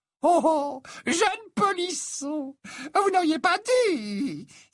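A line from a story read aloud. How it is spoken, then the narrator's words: Shrill old woman. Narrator (French): s'exclama la vieille Hepzibah d'une petite voix aiguë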